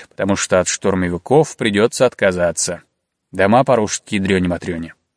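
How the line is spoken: Gloomy prophetic man. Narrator (Russian): мрачно напророчил другой сибиряк Михеич

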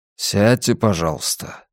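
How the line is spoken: Calm request. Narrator (Russian): спокойно попросил Йона

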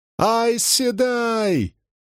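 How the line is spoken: Woman screaming. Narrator (Russian): завопила какая-то женщина

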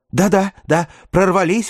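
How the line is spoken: Exclamation. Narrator (Russian): воскликнула Ревекка

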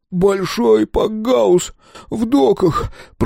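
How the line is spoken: Whining. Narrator (Russian): проскулил Толи

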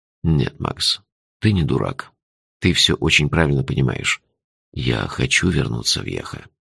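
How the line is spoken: Soft. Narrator (Russian): мягко сказал Джуффин

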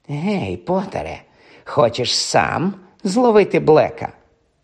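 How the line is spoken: Spiteful hiss. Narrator (Ukrainian): Мелфой, злісно ... просичав

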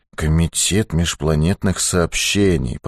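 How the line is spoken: Muttering. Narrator (Russian): пробормотал он

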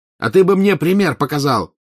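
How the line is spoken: Angry shouted retort. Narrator (Russian): крикнул в ответ красный злой Маклагин

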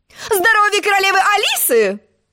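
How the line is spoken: Shrill squeal. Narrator (Russian): взвизгнула она

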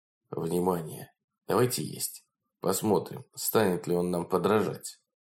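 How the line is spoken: Whisper. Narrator (Russian): Лорд сказал шепотом

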